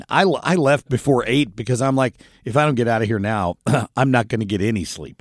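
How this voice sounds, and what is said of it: Scratchy, hoarse voice. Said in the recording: “my voice is scratchy”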